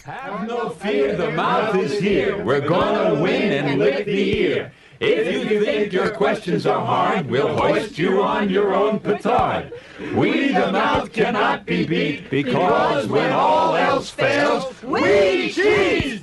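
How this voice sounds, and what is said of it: New York accent. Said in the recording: “what a New York accent my friends had”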